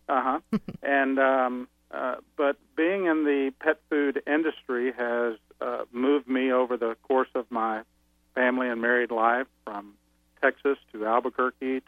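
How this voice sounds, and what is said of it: Slight Texan accent. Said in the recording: “by birth, I'm a Texan. You may hear it in my voice a little bit.”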